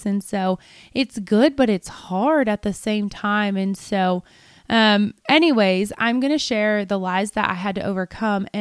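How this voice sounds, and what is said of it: Slightly hoarse voice. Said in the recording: “my voice is actually a little hoarse ... I have lost a little bit of my voice”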